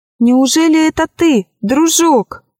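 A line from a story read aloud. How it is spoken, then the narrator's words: Exclaimed. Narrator (Russian): воскликнула она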